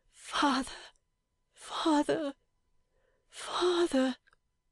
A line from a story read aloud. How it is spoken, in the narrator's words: cried out